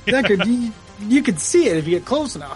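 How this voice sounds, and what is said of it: Imitates another person's voice. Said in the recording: “my Ridley Scott impersonation.”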